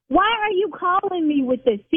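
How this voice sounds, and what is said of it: Yelling. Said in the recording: “See, now I'm yelling.”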